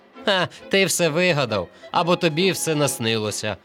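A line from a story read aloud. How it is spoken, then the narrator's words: Group laughing. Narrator (Ukrainian): сміялися вони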